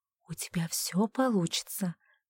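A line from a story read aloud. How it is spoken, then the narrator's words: Encouraging whisper. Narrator (Russian): одобрительно прошептала Александра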